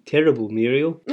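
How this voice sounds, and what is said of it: Put-on South African accent. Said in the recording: “I don't know why I did it in a South African accent.”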